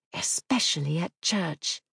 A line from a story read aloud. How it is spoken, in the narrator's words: She lowered her voice to a whisper